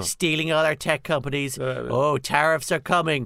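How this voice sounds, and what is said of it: American accent, Trump impression. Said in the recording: “Was Jack Chambers any good at doing an American accent? ... Mr. President”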